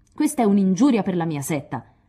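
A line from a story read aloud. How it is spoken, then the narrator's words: Shouted in mimicking voice. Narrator (Italian): le gridò dietro Lori scimmiottando Amy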